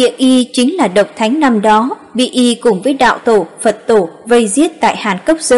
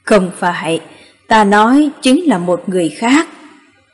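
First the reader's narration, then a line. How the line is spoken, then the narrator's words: Sighing after a silence. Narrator (Vietnamese): Nho Thánh im lặng một trận, thở dài nói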